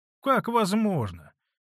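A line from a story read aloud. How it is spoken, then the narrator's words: Plain. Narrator (Russian): ответил Феклист Дмитрич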